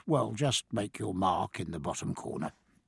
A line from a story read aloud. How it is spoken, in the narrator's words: he murmured